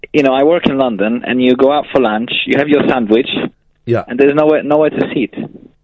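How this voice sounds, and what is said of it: Speaks with a foreign accent. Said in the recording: “I'm detecting an accent.”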